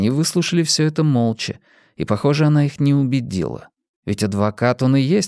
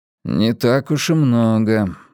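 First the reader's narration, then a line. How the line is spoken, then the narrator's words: Gloomy, resentful. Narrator (Russian): мрачно произнес Бадди, словно в незначительности суммы была виновата Саманта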